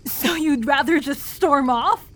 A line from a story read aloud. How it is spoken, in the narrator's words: She barked